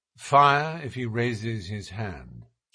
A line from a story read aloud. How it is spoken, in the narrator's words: said Holmes quietly